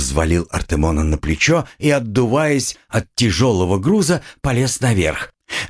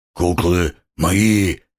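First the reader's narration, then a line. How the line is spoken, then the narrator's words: Grumbling. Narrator (Russian): проворчал он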